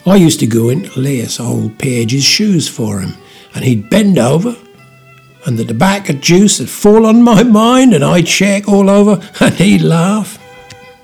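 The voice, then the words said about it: Old Norfolk man voice impression. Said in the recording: “his best John Gray impersonation ... having spent years working with old Norfolk boys”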